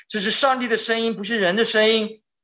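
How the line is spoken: Crowd shouting. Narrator (Chinese): 百姓喊着说

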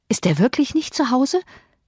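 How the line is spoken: Breathless excited panting. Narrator (German): keuchte, atemlos vom Laufen und von der Aufregung

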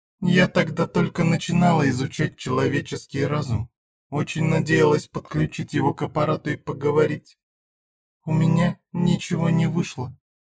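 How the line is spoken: Quiet near-whisper. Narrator (Russian): тихо говорила Зена, почти шептала

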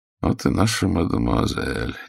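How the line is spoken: Quiet, polite, smiling. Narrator (Russian): негромко проговорил, вежливо улыбаясь

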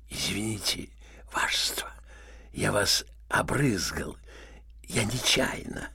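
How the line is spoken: Cough, then whisper. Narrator (Russian): Червяков кашлянул зашептал генералу на ухо

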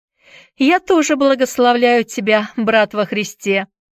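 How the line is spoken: Shouted after someone. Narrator (Russian): крикнул Эллиот ему вслед

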